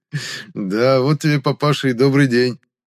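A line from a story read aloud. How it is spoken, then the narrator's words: Burst out laughing. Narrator (Russian): расхохотался я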